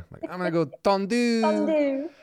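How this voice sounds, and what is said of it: Attempted put-on French accent. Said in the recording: “that was just me trying to do a French accent.”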